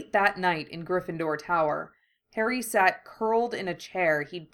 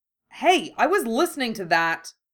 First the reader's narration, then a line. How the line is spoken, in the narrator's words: someone snapped